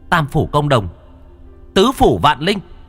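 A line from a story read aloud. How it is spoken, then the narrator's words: Shouted incantation. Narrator (Vietnamese): Cô Thao miệng quát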